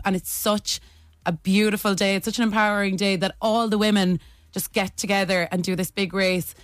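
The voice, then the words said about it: Irish Tipperary accent. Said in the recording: “as you can probably hear from the accent, I'm from Tipperary. I'm not a Dub.”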